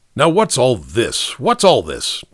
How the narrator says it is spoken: demanded Ellery fiercely, for after all, Nicky was there

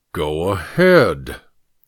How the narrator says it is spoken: said thickly

